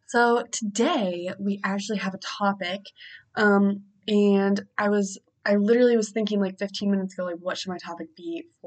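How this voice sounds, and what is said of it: Deeper, congested sick-sounding voice. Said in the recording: “I sound like my voice is deeper than normal, it is. It's just because I'm kind of sick ... if you hear me sniff often”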